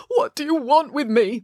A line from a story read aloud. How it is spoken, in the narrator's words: moaned their father